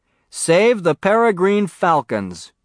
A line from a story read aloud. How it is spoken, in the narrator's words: said in a loud, clear voice